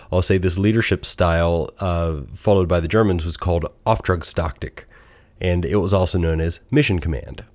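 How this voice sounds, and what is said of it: American accent. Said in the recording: “in my most American accent”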